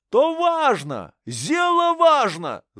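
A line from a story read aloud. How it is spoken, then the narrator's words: Shouting. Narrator (Russian): закричал Егор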